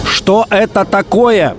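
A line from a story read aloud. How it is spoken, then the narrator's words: Shouting into phone. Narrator (Russian): кричал в трубку Спиридонов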